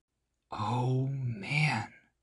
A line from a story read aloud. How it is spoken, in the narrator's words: he whispered